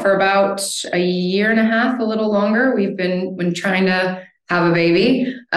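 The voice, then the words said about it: American accent. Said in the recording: “as you can hear from my accent, I'm an American”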